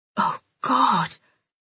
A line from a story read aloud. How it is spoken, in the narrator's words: I whispered